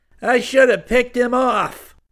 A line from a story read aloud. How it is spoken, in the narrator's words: Karras snarled